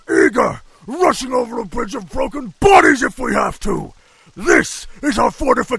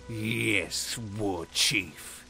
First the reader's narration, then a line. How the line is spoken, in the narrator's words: through clenched teeth